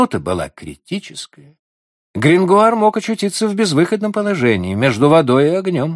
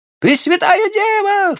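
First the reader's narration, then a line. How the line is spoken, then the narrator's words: Children crying out. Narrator (Russian): вскрикнули дети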